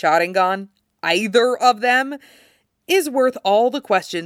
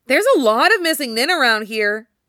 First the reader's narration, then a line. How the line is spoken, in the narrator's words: Obito says, cheerfully confused